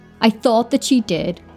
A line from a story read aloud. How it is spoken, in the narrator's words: his voice trembled